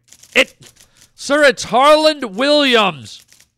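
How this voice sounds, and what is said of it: Yelling, loud angry voice. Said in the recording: “Why are you yelling?”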